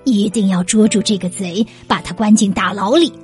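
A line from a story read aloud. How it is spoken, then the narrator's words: Furious, through gritted teeth. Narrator (Chinese): 县官气得咬牙切齿地说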